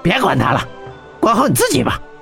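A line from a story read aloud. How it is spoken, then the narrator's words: Angry. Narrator (Chinese): 黄力豹怒道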